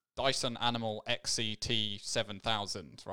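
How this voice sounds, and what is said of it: Robotic, nerdy character voice. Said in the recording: “did a robotic voice ... that was a general robot ... That was a generic nerd voice.”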